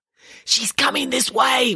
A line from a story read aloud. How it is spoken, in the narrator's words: whispered Nanny Piggins